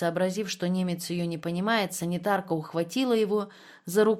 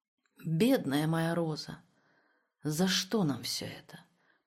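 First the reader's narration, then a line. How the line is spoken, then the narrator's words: Tearful trembling mutter. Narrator (Russian): пробормотал он дрожащим от слез голосом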